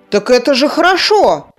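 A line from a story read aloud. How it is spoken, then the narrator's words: Exclaiming. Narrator (Russian): Воскликнул Кир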